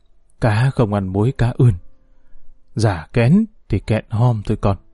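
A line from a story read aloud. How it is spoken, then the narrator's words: Sighing. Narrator (Vietnamese): bà thở dài nói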